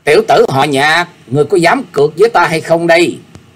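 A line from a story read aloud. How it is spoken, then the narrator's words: Loud raised shout. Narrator (Vietnamese): y bèn cao giọng quát lên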